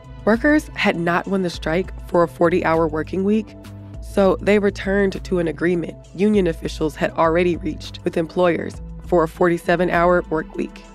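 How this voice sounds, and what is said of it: Slightly raspy voice. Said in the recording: “I sound a little bit raspy today. I'm recovering from a cold”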